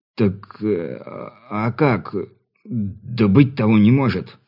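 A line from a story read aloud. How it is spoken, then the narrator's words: Confused mumbling. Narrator (Russian): растерянно бубнил крестьянин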